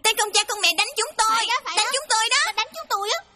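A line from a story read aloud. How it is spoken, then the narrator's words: Children shouting. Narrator (Vietnamese): chúng la lên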